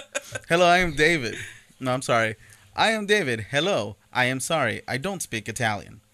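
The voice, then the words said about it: Mock Italian accent. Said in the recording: “Italian accent ... That was my Mario.”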